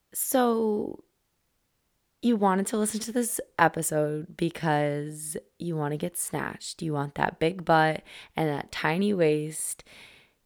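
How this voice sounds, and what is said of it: Slightly hoarse voice. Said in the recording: “my voice is a little hoarse. I lost it over the weekend”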